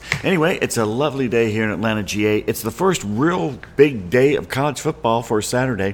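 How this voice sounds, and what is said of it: Deep early-morning voice. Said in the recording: “my voice sounds uh, actually kind of deep and uh, impressive because it's before noon”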